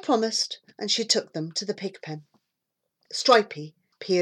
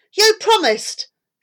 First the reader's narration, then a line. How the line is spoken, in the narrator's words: said Debbie fiercely